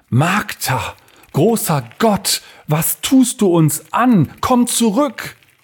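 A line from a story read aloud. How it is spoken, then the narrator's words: Quiet cry. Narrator (German): Er schrie dies leise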